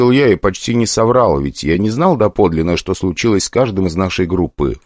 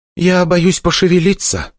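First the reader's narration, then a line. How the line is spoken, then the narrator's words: Honest admission. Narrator (Russian): честно призналась Ника и судорожно вздохнула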